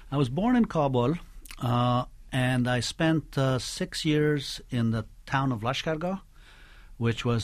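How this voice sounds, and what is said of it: American-accented English. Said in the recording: “you speak English with an American accent ... my English is without accent”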